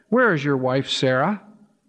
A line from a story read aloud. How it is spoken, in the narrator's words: they asked him